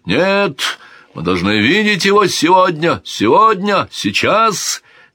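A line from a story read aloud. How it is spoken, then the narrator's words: Soldiers shouting together. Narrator (Russian): кричали и христианские, и мавританские воины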